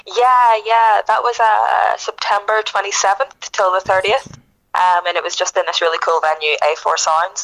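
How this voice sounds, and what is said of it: Northern accent. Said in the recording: “you are from the north ... That's where that nice accent comes from.”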